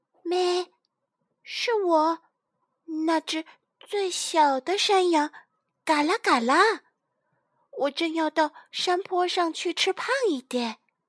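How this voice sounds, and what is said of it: Small goat voice, speaking quietly. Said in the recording (Chinese): “小山羊 小声的回答”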